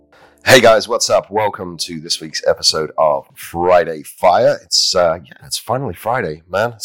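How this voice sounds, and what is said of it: Deeper voice than usual. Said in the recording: “My voice is still a little bit deep. The allergies down here in Texas are kicking in pretty good too.”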